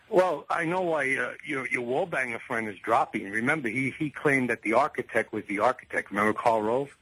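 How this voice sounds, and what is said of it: New York accent. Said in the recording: “are you from New York originally? That's the only reason you listen to me, because of the accent? ... I got the same accent as you.”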